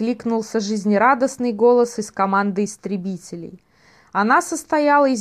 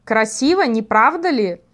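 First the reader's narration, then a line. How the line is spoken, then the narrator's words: Proud exclamation. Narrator (Russian): сияя гордостью, воскликнул Гракина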